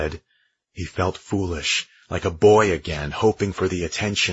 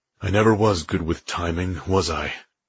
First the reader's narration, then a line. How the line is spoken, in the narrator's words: She sighed